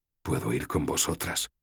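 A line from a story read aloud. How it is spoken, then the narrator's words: Whispered. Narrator (Spanish): susurré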